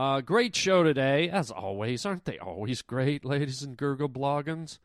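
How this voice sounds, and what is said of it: Usual voice. Nothing is said of it.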